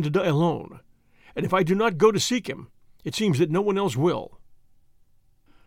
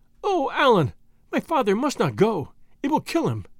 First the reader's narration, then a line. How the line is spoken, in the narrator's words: exclaimed Marie, who took a more serious view of his case than I did